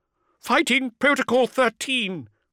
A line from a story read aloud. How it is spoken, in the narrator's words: the Lord High Admiral screamed